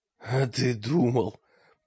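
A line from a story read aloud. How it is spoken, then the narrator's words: Hoarse rasp. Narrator (Russian): прохрипел мрак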